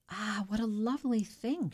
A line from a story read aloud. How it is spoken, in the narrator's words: she exclaimed